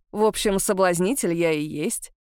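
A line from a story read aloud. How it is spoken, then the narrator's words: Wry snort. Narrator (Russian): хмыкнул Этьен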